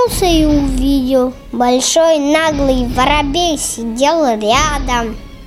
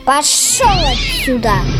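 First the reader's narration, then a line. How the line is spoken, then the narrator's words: Kitten's hiss. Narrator (Russian): Зашипел котенок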